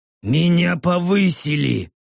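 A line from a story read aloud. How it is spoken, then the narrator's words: Hoarse orc rasp. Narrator (Russian): прохрипел орк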